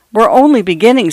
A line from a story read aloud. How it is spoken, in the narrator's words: said Mr